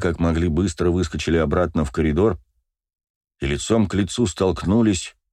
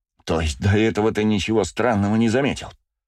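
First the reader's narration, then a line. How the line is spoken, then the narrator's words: Through gritted teeth. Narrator (Russian): процедил и сквозь зубы Зулу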